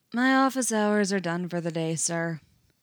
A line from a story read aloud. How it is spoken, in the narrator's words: Fox says blandly